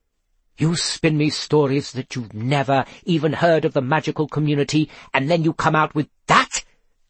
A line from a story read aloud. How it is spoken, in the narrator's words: she snapped